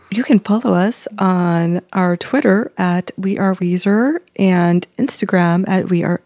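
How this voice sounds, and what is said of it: Deep, fancy radio host voice. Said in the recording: “talking like a man? ... my like fancy host voice ... your radio voice? ... my professional voice”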